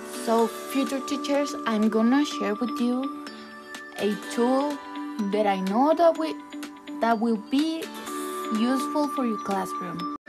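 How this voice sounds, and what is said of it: Very strong accent. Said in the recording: “I know that I have a very strong accent.”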